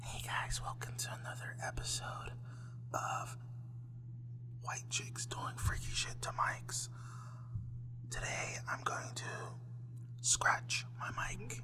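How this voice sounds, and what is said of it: Whispering ASMR-style voice. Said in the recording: “girls will go on mic and do like whispers ... they'll whisper”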